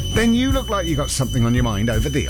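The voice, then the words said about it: Attempted Yorkshire accent, not convincing. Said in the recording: “What accent was that? ... It's my attempt at a Yorkshire accent, but Yorkshire folk would disagree.”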